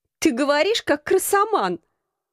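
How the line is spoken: Laughing. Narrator (Russian): засмеялась

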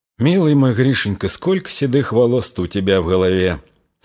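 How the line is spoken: Whisper. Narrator (Russian): сказала шепотом

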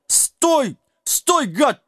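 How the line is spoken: Desperate yelling. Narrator (Russian): вопил несчастный, безуспешно пытаясь поймать волочащиеся поводья

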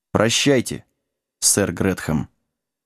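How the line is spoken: Quiet reply. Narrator (Russian): Джек тихо ответил

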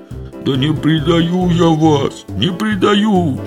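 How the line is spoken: Ashamed howl. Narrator (Russian): взвыл пристыженный Митька

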